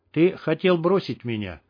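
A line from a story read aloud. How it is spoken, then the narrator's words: Cold. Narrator (Russian): сказала Чих холодно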